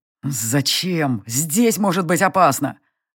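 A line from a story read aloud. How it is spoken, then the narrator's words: Growl. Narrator (Russian): Рыкнув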